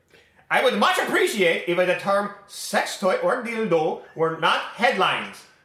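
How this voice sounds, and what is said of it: Put-on accent, Swedish-Italian sounding. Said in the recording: “your best German Sturkenboom impression ... It was like Swedish Italian ... you almost went Italian”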